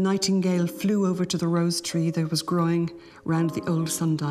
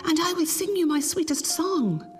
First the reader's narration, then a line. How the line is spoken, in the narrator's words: she cried